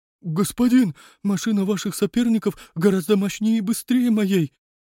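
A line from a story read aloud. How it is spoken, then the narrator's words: Frightened babbling. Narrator (Russian): Пролепетал побледневший таксист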